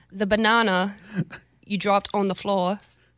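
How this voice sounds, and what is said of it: Attempted British accent. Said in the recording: “Can you do a British accent”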